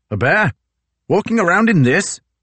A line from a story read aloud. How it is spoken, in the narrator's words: Gore shouted